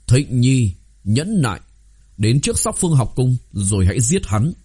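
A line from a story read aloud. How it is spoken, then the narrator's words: Hurried raised voice. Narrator (Vietnamese): Lâm Chí Viễn vội vàng cao giọng nói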